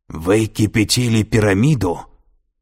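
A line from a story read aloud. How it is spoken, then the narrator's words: Menacing question. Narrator (Russian): грозно переспросила Сато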